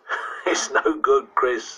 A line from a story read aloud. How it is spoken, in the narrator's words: said with another laugh